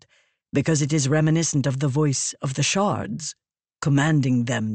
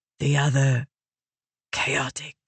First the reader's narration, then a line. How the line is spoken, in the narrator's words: Raboniel whispered